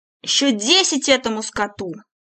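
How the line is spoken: Roar. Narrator (Russian): исправник взревел

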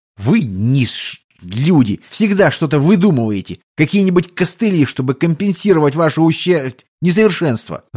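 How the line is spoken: Angry offended reply. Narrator (Russian): зло ответил контрабандист, явно обиженный

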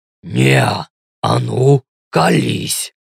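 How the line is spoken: Growled. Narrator (Russian): рыкнул Ленс

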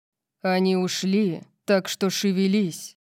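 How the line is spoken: Sudden loud growl. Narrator (Russian): Прорычал он, заставив меня вздрогнуть от внезапной громкости

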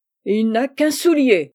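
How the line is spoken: Furious uncle exclaiming. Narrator (French): s'écrie le meilleur des oncles, devenu terrible

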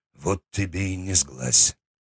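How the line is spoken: Quiet. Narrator (Russian): тихо сказал Аслан

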